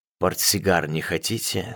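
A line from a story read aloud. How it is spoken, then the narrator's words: Low rough voice. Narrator (Russian): спросила одна низким шершавым голосом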